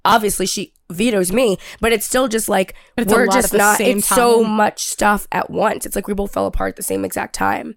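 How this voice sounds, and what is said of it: Sick, unwell-sounding voice. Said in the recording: “as you can tell, extremely sick ... I sound like a human again”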